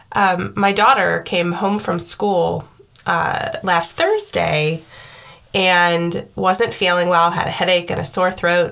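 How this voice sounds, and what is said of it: Slightly congested voice from a cold. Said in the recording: “I had a cold, which you may still hear in my voice, a little bit of remnant of the cold.”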